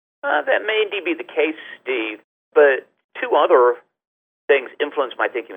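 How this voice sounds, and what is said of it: English accent. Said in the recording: “I can tell from your accent that you're originally from England”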